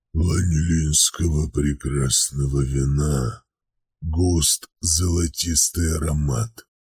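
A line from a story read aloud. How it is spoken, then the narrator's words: Low rumbling tiger voice. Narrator (Russian): проговорил тигр низким раскатистым голосом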